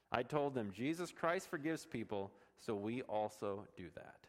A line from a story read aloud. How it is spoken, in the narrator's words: Darala said